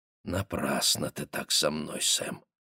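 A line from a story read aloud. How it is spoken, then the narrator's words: Quiet. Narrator (Russian): сказала она тихо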